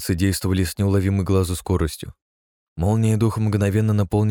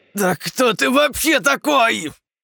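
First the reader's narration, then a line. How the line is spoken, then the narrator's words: Sudden shout. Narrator (Russian): Зажимая рукой образовавшуюся зияющую рану, вдруг ни с того ни с сего выкрикнул Кирк, в глазах которого стали образовываться зачатки страха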